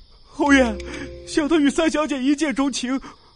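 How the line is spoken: Tearful pleading. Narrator (Chinese): 武安朝云泰哭诉道

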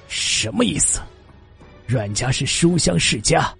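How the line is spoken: Angry, deep low voice. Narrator (Chinese): 外公更加生气，沉声的说道

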